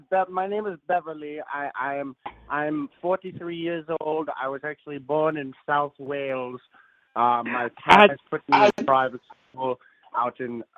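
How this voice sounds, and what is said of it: British-sounding accent. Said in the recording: “I thought I heard a British accent.”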